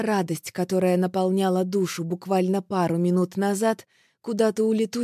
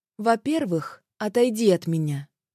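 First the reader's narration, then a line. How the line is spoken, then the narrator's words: Calm. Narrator (Russian): говорю спокойно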